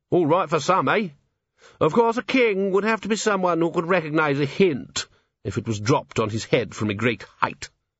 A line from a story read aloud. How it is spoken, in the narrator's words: said sharply